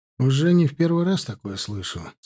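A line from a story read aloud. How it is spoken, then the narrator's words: Even tone. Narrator (Russian): сказал ровным тоном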